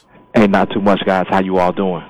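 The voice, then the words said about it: Polished radio announcer voice. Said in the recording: “I hear your radio voice, man. Very nice. ... I had to bring it tonight”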